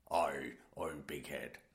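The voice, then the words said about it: Poor put-on Scottish accent, pirate-like. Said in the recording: “supposed to be a Scottish accent ... That was terrible Scottish ... that wasn't Scottish. That was like a pirate ... You've gone Bristol again.”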